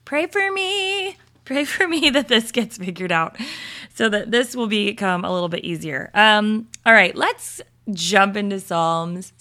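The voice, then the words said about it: Slightly raspy voice. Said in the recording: “I have a little bit of a raspy voice this morning.”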